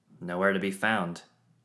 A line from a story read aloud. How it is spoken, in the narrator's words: Quinn said